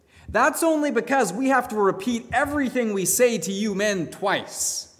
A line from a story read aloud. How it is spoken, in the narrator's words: his wife then called out from the kitchen